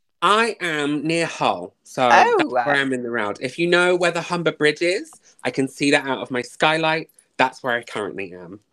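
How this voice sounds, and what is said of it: Plummy southern English accent. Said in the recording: “I've got a lovely plummy accent ... I have a Surrey Hills accent.”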